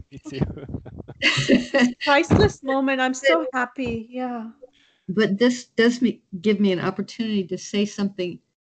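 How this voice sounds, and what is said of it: Choked-up, emotional voice. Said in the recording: “I'm a little choked up.”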